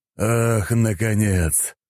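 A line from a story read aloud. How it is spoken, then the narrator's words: Relieved exhale. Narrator (Russian): облегченно выдохнул Винтер, понимая, что теперь его шансы на выживание куда выше, чем прежде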